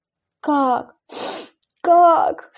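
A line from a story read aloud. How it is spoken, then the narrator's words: Sobbing. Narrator (Russian): всхлипнула она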